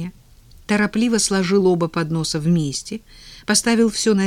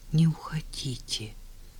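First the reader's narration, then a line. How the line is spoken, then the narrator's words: Quiet repetition. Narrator (Russian): повторил он тихо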